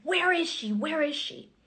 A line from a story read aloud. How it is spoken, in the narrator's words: these screams and these yells